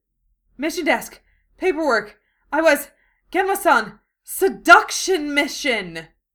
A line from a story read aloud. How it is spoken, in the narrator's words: they both gasp with horror